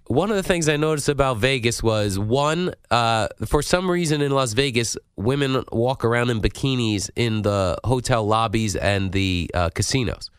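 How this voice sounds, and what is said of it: Congested, stuffed-up voice. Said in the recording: “excuse my voice, I'm very stuffed up. I have a lot of snot coming out of my nose.”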